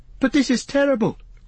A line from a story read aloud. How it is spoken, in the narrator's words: cried Frodo